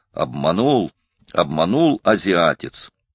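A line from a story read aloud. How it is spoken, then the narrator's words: Gloating growl. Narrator (Russian): злорадно рычал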